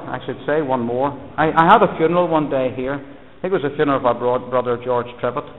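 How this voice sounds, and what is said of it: Irish accent. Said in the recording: “he heard the Irish accent”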